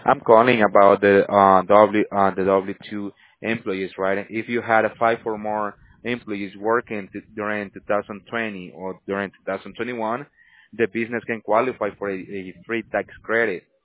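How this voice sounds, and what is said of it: Strong, hard-to-understand accent. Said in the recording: “I'm having trouble understanding your accent.”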